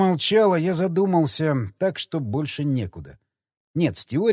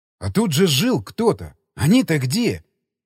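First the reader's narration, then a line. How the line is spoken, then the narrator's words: Nearly shouting. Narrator (Russian): Чуть не закричал я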